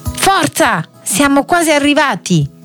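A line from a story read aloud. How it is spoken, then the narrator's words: Shouting. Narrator (Italian): Jimmy gridò ai fratelli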